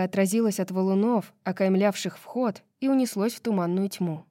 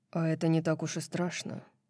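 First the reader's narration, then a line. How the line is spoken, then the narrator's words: Muttering. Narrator (Russian): пробормотал Хант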